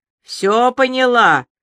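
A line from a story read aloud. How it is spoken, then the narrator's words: Shouted. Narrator (Russian): крикнул Илья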